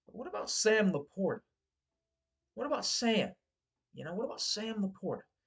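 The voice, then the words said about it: Put-on Southern accent. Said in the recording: “I don't know why I was doing a southern accent there”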